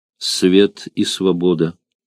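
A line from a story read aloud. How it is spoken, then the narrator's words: Quiet speech into ear. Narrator (Russian): Арторикс тихо сказал ему на ухо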